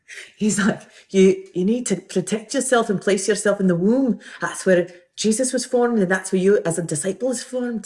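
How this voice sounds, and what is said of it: Put-on Glasgow Scottish accent. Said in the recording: “Sorry, my I'm a Glas. That's my Glasgow uh, accent.”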